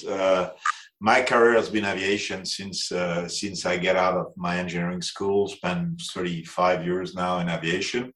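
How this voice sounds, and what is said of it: French accent. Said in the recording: “I'm French, as you can probably will notice on my accent.”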